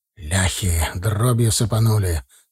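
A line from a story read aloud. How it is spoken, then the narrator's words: Through gritted teeth. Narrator (Russian): сквозь зубы проговорил Федот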